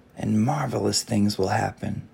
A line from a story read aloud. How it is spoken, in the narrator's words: the old man whispered